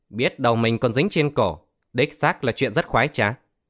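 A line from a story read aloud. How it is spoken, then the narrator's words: Laughing loudly. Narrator (Vietnamese): Tiểu Cao cười lớn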